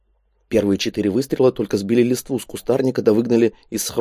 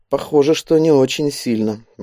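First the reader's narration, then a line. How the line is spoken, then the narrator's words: Gloomy remark. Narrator (Russian): мрачно заметил Андрей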